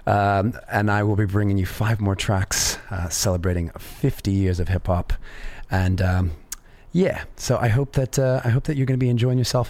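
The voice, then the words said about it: Slightly raspy voice. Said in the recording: “As you can hear, I've got a little bit of a raspy voice.”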